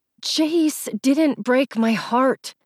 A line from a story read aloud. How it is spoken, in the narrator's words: I said through clenched teeth